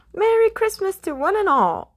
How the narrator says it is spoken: Scrooge cried

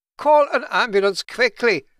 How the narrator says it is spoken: Kurt shouted

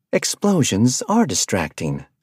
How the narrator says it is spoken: she said sweetly

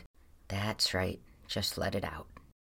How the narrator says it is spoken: periodically murmuring little phrases

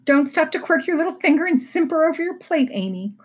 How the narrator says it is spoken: cried Jo, choking on her tea

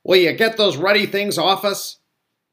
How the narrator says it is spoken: Uncle Vernon shouted

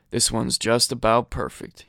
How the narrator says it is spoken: he muttered to himself

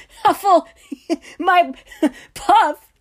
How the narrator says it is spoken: Sirius sobbed, clutching his stomach

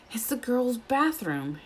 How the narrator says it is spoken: Harry gasped

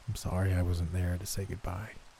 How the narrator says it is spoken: murmured

